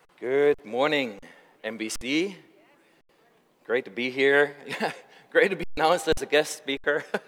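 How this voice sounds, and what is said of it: German accent. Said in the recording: “I have a German accent, takes a couple minutes to get used to”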